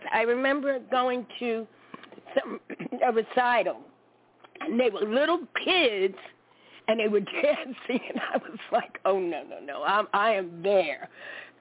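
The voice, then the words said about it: Brooklyn New York accent. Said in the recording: “native New Yorker from Brooklyn. You probably could tell from my accent. They say I have an accent.”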